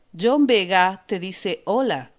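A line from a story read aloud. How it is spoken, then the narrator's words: Plain. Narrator (Spanish): dijo Pandora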